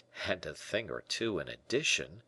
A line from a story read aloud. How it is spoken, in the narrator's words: muttered D'Artagnan